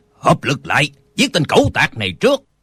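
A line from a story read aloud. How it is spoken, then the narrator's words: Old man's barked command. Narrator (Vietnamese): Một lão già quát lên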